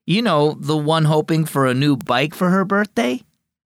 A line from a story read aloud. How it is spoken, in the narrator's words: Dad laughed